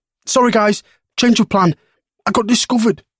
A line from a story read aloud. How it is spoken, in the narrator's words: Marcus yelped as he dashed down the corridor